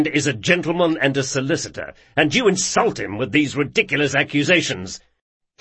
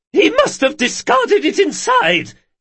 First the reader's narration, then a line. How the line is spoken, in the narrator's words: she cried